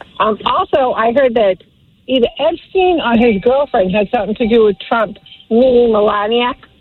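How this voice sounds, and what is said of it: Heavy accent, hard to understand. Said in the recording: “I'm having a hard time understanding anything that you're saying. Between the bell in the back and your horrible accent”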